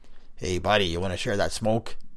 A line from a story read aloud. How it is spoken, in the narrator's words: raspy voice call out